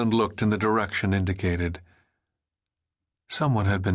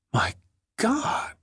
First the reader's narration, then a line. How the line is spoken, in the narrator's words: Helen whispered